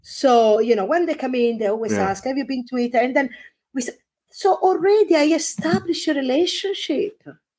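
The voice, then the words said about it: Exotic foreign accent. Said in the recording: “my accent, because I'm exotic”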